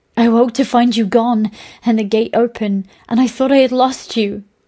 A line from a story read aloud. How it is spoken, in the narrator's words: she cried